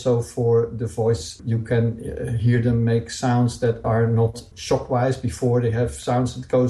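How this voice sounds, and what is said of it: Usual voice. Nothing is said of it.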